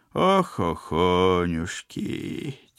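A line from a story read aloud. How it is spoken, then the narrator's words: Heavy sigh. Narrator (Russian): тяжко вздохнула Баба-Яга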